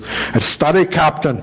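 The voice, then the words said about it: Sean Connery impression. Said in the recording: “do my Sean Connery voice.”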